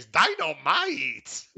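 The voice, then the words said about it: Imitates another person's voice. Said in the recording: “that was a horrible impression ... No, that was good. You hit it. That was really good.”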